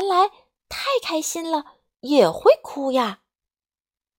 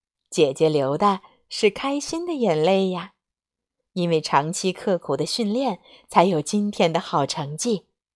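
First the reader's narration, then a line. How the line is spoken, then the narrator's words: Smiling mother's reply. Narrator (Chinese): 妈妈微笑着回答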